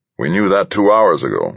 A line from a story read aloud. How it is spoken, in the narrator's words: Wilson growled